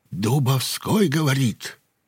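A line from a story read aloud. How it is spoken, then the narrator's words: Ingratiating. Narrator (Russian): сказал вкрадчиво Дубовской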